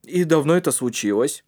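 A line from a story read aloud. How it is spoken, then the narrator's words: Gruff question. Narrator (Russian): спросил он грубым голосом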